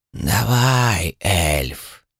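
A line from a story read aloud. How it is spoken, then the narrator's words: Creaky deathly whisper inside head. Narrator (Russian): прошелестел скрипучий мертвенный шепот в моей голове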